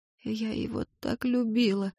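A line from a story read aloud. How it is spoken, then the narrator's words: Tearful muttering. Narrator (Russian): бормотала она, продолжая плакать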